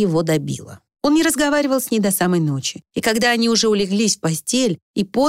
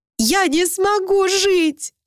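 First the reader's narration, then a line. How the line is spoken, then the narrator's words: Sobbing. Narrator (Russian): рыдала Люся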